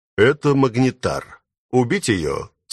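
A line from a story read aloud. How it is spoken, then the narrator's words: Dry question, young man. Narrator (Russian): сухо поинтересовался молодой человек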